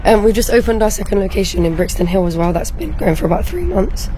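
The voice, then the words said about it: Hoarse, strained voice. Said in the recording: “my voice is gone. I've got really bad hay fever.”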